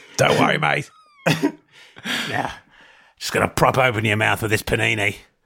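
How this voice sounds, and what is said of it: Imitates another person's voice. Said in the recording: “quite a good impression of a...”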